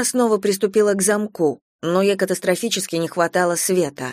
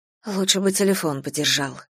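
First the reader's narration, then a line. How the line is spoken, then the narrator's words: Displeased mutter. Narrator (Russian): недовольно пробормотала Надежда Николаевна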